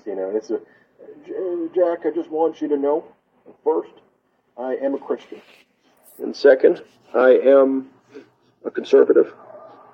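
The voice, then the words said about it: Imitates another person's voice. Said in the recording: “my Mike Pence impression ... Awesome Mike Pence impersonation”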